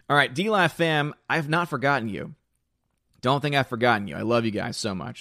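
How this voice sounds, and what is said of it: Strained, hoarse voice giving out. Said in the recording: “my voice is giving out already”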